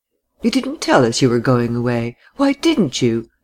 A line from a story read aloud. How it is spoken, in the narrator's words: asked Laura in her distinct tones, between laughing and reproach